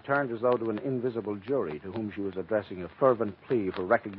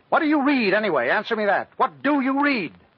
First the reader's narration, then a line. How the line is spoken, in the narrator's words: with all the dramatic suddenness of an experienced prosecutor, she snapped